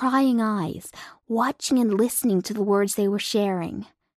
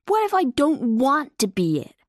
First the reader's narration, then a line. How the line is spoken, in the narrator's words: Lightning blurted out